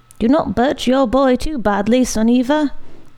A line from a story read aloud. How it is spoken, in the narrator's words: one of the men in the room cried to her